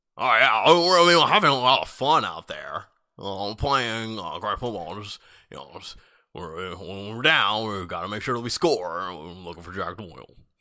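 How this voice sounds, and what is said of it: Impression of Andrew Luck. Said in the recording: “That's my impression. Andrew Luck.”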